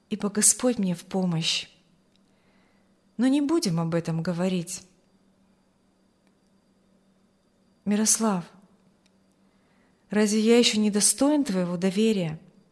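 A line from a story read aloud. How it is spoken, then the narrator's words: Sad question. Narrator (Russian): спросил Аурелий печально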